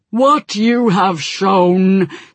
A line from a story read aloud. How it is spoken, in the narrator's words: said a deep, rumbling voice that was rich and cold with fury